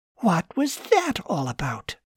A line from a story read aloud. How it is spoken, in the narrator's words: Susan said in a half whisper